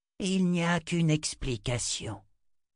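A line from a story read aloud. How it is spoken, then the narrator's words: Sighed. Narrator (French): soupira Shota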